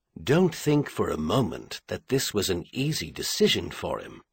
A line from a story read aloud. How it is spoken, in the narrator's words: Corus said gently